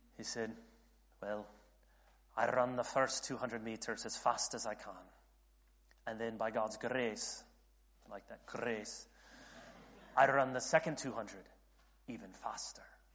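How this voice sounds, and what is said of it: Bad put-on Scottish accent. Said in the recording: “I can give you my bad Scottish accent”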